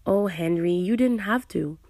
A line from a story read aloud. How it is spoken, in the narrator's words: I started, but he quickly cut me off